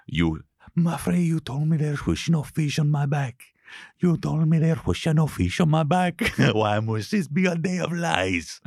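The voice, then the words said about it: Put-on Portuguese accent. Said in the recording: “I don't do Brazilian accents. It's a Portuguese accent.”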